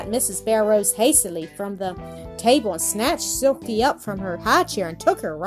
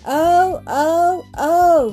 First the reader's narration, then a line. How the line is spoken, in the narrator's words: he sobbed